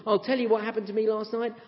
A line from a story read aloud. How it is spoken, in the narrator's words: shouted over the gasping engine